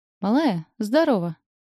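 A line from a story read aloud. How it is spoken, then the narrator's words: Joyful shout. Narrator (Russian): радостно кричит Тёма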